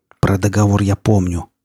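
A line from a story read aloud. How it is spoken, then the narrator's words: Growling. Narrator (Russian): прорычал он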